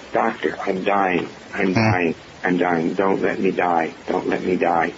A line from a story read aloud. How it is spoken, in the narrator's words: Her throat was constricted, and she, in that constricted voice, she said